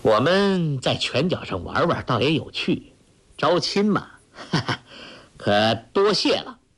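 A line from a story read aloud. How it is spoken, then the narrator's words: Hearty laugh. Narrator (Chinese): 那公子哈哈一笑说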